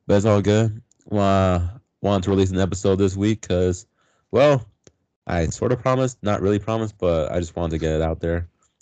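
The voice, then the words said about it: Sick, hoarse voice. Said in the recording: “my voice is just pretty much sick at this point ... he sounds like Bane”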